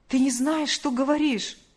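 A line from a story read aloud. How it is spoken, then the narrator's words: Exclaiming. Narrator (Russian): воскликнул он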